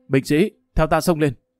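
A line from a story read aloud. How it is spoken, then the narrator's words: Loud commanding voice. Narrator (Vietnamese): Hồ Bất Quy lớn tiếng nói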